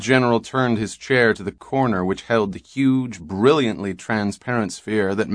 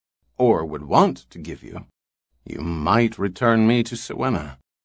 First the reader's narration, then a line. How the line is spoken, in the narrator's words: he muttered